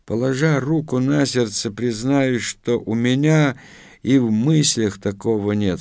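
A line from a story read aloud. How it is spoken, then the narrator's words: Plain. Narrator (Russian): сказал Протасов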